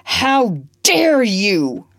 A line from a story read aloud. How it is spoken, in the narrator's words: roared Legree